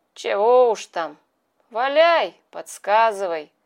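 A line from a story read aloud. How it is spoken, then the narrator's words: Glum. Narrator (Russian): уныло сказал Петя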